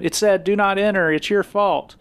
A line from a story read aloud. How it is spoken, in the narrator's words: as he's yelling at her